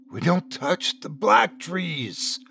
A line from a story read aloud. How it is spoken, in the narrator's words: the old man hissed